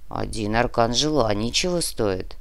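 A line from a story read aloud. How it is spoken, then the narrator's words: Grumbling. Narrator (Russian): проворчал Нар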